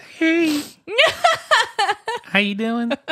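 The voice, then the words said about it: Little girl voice. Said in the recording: “With my little girl voice”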